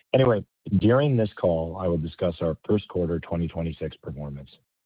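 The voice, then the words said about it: Slightly hoarse voice. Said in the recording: “I apologize if I'm a little bit hoarse.”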